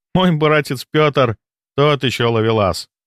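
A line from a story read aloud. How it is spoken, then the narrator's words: Laughing. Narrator (Russian): смеялась она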